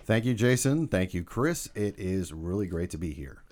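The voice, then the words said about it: Polished radio announcer voice. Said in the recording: “Putting on the radio voice.”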